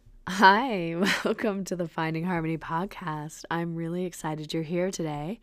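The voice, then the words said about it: Unusually low, rough voice. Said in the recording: “my very sexy podcasting voice. I've come down with some kind of cough that's changing my voice into this very lovely low tone”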